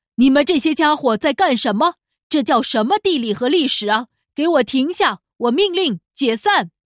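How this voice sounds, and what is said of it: Loud booming lion voice. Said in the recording (Chinese): “狮子用洪亮的声音说道”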